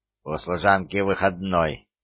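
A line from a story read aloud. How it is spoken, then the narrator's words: Sharp, curt. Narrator (Russian): резко бросила герцогиня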